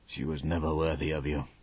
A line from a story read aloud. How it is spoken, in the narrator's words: Sir Francis said softly